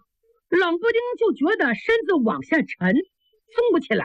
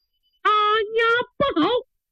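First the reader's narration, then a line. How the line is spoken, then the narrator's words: Sudden shout. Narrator (Chinese): 突然秋山喊了一声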